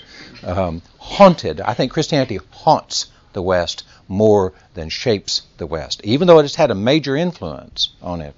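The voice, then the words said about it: Texas accent. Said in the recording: “my Texas accent really hurts my vowels sometimes”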